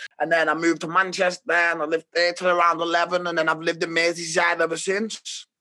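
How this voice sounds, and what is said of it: Merseyside English accent. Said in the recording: “I'm an artist from Merseyside ... I can't tell from your accent or anything.”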